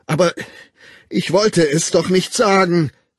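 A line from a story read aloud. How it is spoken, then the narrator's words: Anguished cry. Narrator (German): rief der Wilde und rang die Hände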